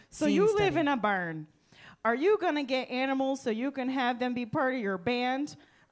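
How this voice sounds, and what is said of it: Midwestern mom character voice. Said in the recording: “my Lorraine voice ... a power walking Midwestern mom ... I've been practicing ... That's not bad.”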